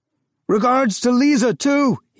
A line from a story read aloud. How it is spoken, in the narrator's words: he shouted above the rattling